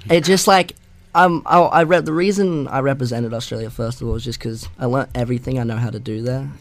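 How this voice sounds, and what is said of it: Mixed Australian and American accent. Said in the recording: “I totally hear an Australian and an American accent.”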